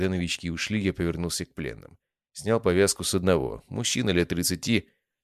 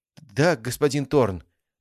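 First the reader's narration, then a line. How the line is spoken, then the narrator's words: Forced, strained words. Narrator (Russian): выдавил один из них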